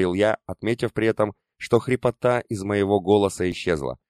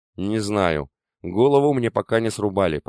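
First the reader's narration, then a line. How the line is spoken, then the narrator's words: Grumbled. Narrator (Russian): проворчал я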